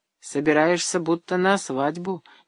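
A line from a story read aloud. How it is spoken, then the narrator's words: Displeased voice. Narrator (Russian): недовольным голосом заметила Александра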